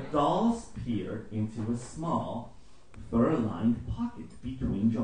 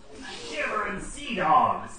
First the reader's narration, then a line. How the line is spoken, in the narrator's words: exclaimed